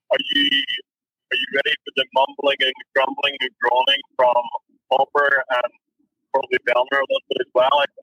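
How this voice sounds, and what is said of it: Irish accent. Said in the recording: “an accent like that ... Oh, Irish.”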